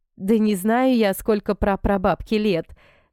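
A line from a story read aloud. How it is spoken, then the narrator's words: Laughing. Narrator (Russian): смеялась Нелли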